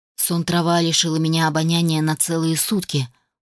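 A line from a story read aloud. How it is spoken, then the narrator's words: Dejected voice. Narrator (Russian): упавшим голосом произнес Адам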